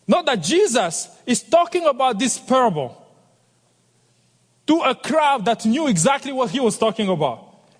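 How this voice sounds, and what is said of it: French accent. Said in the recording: “it's kind of heavy on my tongue with my French accent”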